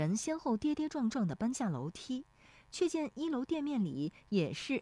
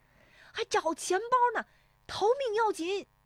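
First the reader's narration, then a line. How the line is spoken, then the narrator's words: Urgent shout while running. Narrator (Chinese): 石丽华边奔边喊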